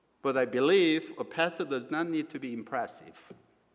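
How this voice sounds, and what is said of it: Non-native English accent. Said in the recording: “my English still carries the accent of my first language”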